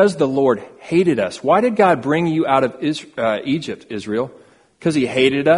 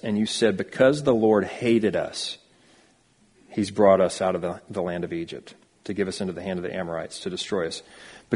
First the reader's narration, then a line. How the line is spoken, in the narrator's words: you grumbled in your tents